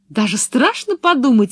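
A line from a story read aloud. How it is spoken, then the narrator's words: Cheerful. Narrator (Russian): весело закончила Пеппи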